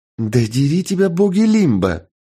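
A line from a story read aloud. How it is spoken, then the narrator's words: Exclaimed, woman. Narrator (Russian): воскликнула женщина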